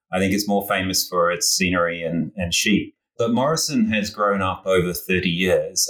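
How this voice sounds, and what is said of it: New Zealand accent. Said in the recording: “you might detect from my accent that I grew up in New Zealand and spent many, many years in Australia.”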